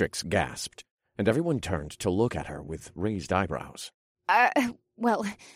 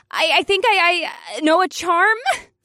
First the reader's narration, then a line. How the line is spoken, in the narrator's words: She squealed like a terrified mouse